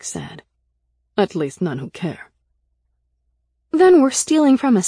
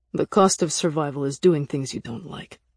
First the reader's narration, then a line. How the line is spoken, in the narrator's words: he said coldly